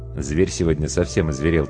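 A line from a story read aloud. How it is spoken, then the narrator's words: Quiet speech. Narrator (Russian): тихо сказал гример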